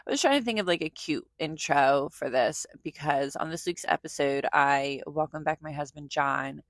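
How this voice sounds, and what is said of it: Slightly scratchy morning voice. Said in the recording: “I just woke up not too long ago, so my voice is still a little scratchy”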